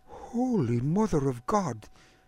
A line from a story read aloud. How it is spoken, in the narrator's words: Agnes whispered